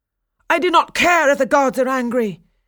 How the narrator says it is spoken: cried Daphnis

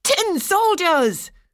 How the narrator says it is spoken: cried several of the boys

